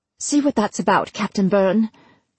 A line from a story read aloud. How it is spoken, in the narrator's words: the Queen snapped